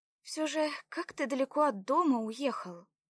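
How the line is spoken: Sighing. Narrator (Russian): вздохнула Белава

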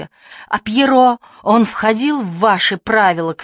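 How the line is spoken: Shouting. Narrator (Russian): кричал Дени

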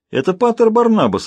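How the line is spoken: Exclaiming. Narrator (Russian): воскликнул он

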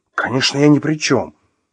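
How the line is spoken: Angry exclamation. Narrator (Russian): воскликнул рассерженный Артем

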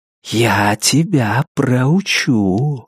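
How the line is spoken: Velvety voice. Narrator (Russian): сказал Лестер своим новым бархатным голосом

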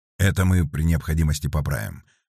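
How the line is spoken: Grumble. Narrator (Russian): проворчал Сергей

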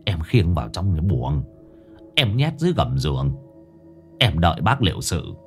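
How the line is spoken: Whispering. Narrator (Vietnamese): Ông Tạo thì thầm

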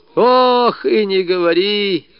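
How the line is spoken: Old woman groaning. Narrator (Russian): застонала бабушка Лукерья

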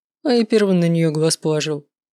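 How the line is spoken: Snorting. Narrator (Russian): фыркнул Маркус

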